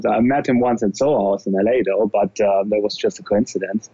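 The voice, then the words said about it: German accent speaking English. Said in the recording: “And you can probably hear it. It's funny for Americans. Sometimes they come to me and they say, like, are you related to Arnold Schwarzenegger? Just because of my accent ... I'm actually German”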